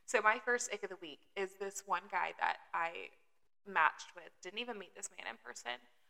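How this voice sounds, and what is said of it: Mild Southern US accent. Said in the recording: “southern accent... you guys are listening to this can tell that I am indeed from the South... not, hey, y'all, how you doing”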